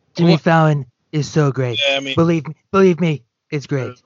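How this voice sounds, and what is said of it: Imitates another person's voice. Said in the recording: “my Donald Trump impression”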